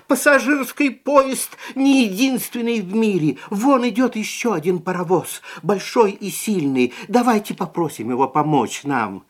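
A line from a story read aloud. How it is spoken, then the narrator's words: Shouting. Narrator (Russian): клоун закричал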